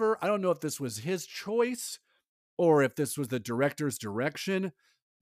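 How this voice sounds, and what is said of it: Usual voice. Nothing is said of it.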